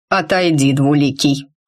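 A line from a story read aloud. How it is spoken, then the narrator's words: Cold, dismissive. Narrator (Russian): холодно произнес он, словно Рид был помехой на его пути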